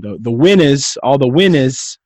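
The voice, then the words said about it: Put-on New Jersey accent. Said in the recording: “I got to get my Jersey accent.”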